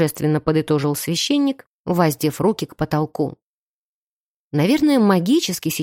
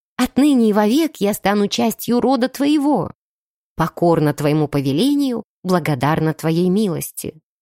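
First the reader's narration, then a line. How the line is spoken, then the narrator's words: Joyful bride's answer. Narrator (Russian): невеста его радостно ответила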